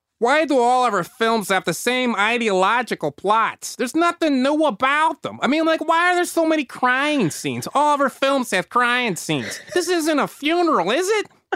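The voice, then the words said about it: Comical Chicago accent. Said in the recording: “comical Chicago accent ... my imitation's going to be ... I'm going to go with this pure Chicago.”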